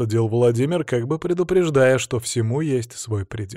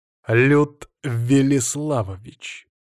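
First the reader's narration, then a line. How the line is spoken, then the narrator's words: Through gritted teeth. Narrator (Russian): процедил я в ответ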